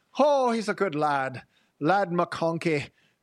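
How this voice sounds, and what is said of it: Mock Irish accent. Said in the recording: “I am mostly Irish, so I'm allowed to make fun of the Irish accent”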